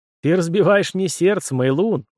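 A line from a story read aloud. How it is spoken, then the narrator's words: Sighing after laughter, young man. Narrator (Russian): вздохнул, отсмеявшись, молодой человек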